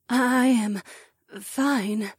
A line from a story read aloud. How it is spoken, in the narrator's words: she stammered